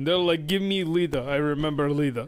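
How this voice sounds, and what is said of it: Put-on Russian accent. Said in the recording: “I don't know why I have a Russian accent”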